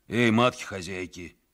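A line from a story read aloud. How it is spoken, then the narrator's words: Hoarse calling out. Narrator (Russian): сипло покрикивали они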